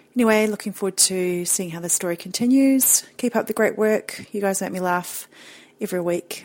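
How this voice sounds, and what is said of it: Distinctive non-American accent. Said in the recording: “your accent is amazing... love that accent.”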